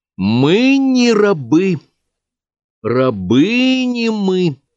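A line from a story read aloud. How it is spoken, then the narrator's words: Slow, clear. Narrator (Russian): медленно и четко произнесла Катя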